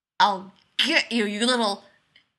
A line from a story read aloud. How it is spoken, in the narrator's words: he growls